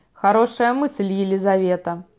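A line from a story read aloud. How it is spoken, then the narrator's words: Plain. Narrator (Russian): сказал я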